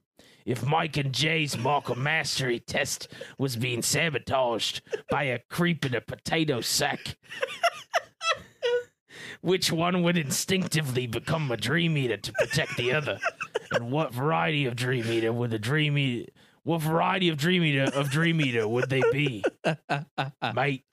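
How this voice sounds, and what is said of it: Put-on Australian accent. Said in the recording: “I'm going to do my Australian accent.”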